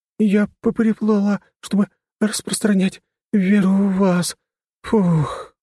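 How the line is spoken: Exhaled. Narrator (Russian): выдохнула она

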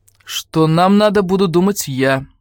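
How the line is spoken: Rough interruption. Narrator (Russian): грубо перебил ее Круферт

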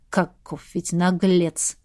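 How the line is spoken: Prince snorting. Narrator (Russian): фыркнул князь

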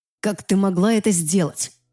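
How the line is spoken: Growling. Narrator (Russian): зарычал на меня Люциан

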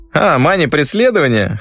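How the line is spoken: Short laugh. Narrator (Russian): хохотнул Кригов

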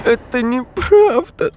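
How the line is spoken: Whimpering. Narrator (Russian): захныкала Агата

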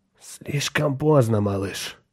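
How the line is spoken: Hoarse male proclamation. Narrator (Russian): хрипло провозгласил Саймон

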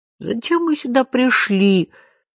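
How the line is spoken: Sobbing. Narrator (Russian): всхлипнул Жан-Жорж

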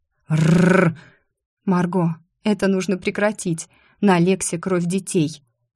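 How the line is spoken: Quiet. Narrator (Russian): тихо сказала Лидия

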